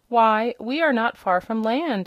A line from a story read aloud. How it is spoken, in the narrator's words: exclaimed the hen